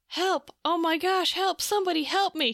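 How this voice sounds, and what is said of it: Screaming cry for help. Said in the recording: “He's screaming”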